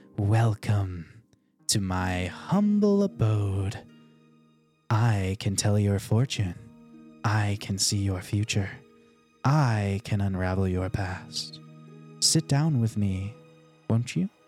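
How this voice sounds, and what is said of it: Put-on fortune teller character voice. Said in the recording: “you hear a voice that is clearly like it is them doing a voice.”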